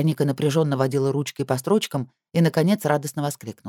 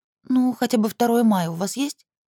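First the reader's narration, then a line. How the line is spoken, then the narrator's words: Uncertain question. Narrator (Russian): неуверенно спросила Вероника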